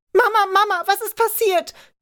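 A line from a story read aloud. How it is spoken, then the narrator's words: Screaming. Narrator (German): schrie Kathy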